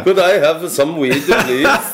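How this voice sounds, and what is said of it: Fake Dutch accent. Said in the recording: “Americans going in trying to fake a Dutch accent.”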